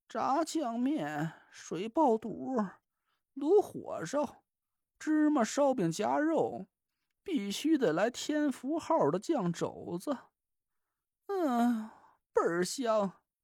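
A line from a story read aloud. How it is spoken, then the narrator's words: Weak mumbling. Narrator (Chinese): 他 嘴里有气无力的嘟囔着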